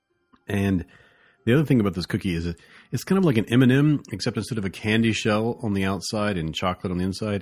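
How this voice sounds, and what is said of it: Strong southern US accent. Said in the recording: “it's making my southern accent just, be unrepressed. It's yanking it out.”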